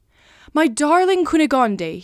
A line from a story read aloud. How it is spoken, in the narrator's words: he exclaimed